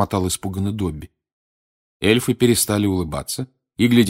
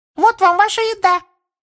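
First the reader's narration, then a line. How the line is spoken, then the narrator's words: Elf's squeak from below. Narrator (Russian): пискнул эльф из-под локтя Гарри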